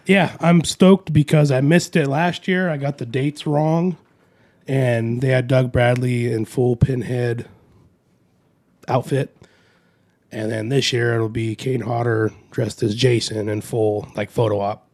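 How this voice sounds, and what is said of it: Congested, sad-sounding voice. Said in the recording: “Why do you sound sad? ... I'm getting over some congestion.”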